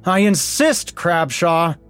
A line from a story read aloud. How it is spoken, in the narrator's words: bellowed the president